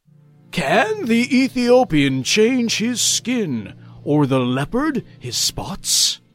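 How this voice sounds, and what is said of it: Dramatic reading voice. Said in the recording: “I'm going to use my dramatic voice.”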